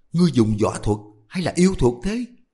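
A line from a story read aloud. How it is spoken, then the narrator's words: Angry shouted question. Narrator (Vietnamese): Huệ Không vừa tức vừa quát hỏi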